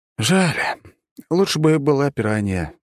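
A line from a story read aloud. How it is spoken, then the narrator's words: Sighing. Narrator (Russian): вздохнул я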